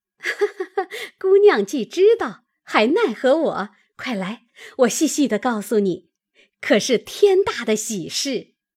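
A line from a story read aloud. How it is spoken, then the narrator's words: Laughing. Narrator (Chinese): 他嫂子笑道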